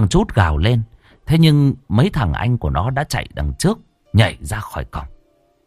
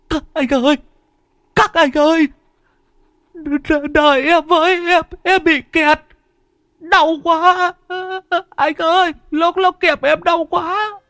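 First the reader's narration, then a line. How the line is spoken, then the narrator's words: Tearful whimper. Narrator (Vietnamese): Thằng Chút mếu máo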